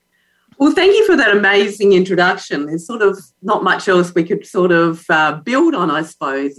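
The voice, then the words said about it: Australian accent. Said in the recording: “is from Queensland, Australia, and has the most beautiful accent”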